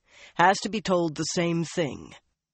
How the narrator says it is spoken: Rand was saying in a firm voice

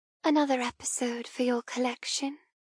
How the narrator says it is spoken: I whisper

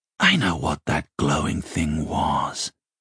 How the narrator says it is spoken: whispered

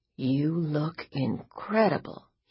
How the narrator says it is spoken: he whispered

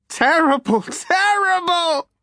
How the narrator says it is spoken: he screamed

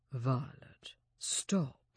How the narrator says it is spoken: he whispered

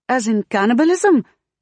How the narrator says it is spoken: Queens blurts

